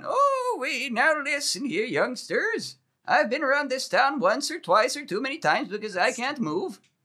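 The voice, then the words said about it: Decrepit old man character voice. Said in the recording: “You could do a really good old man. What was the old man voice you did earlier? ... The cowboy wizard. ... Oh, it's the decrepit old man. ... That's the one that's so good.”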